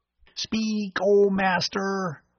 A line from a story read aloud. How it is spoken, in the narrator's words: Bud said, imitating a squeaky robot voice